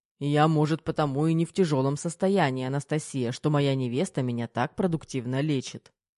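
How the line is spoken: Menacing growl. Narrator (Russian): Грозно рыкнул Кирилл

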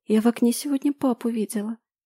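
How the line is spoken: Quiet speech. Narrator (Russian): тихо проговаривает Агата

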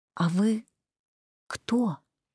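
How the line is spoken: Hesitant whisper. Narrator (Russian): задав его почему-то шепотом

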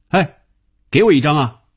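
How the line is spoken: Loud calling. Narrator (Chinese): 红军在叫他 红军在他背后高声叫着

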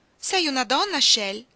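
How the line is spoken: Woman shouting. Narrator (Italian): gridò lei

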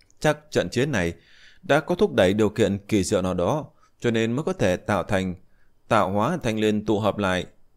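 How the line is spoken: Sighing. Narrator (Vietnamese): Diệp Chi Thu cũng thở dài một hơi, nói

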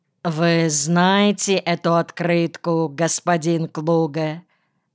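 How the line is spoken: Completely indifferent tone. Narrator (Russian): сказал совершенно равнодушным тоном

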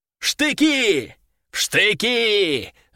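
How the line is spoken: Yelled. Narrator (Russian): заорал Нефедов

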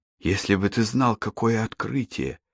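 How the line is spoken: Lowered to whisper. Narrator (Russian): он понизил голос до шепота

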